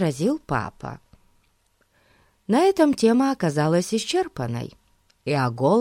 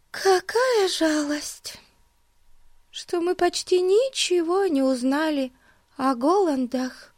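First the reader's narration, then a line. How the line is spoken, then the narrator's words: Sighing. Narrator (Russian): вздохнула Бетси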